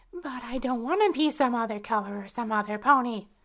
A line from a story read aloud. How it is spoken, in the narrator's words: I exclaimed angrily